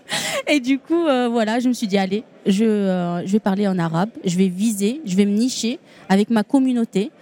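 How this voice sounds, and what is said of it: Tunisian accent in French. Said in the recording (French): “cet accent, c'est tunisien, même si j'habite à Toulouse, mais c'est pas plutôt toulousain, cet accent.”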